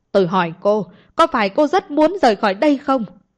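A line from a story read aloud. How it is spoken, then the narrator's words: Angry shout. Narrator (Vietnamese): Anh ta lại càng tức giận mà hét lên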